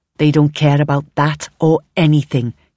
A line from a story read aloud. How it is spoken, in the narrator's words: Kelly says bitterly